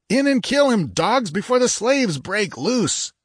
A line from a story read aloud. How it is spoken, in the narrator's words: Demetrio, livid with the agony of his dislocated arms, screaming